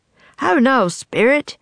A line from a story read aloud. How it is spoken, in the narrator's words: Puck said in a loud voice